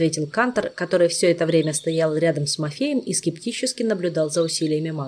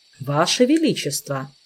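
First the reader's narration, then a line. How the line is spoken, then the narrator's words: Stern objection. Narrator (Russian): строго возразил мэтр Вельмир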